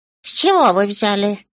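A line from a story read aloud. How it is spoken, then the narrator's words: Grumbling. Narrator (Russian): проворчал Крим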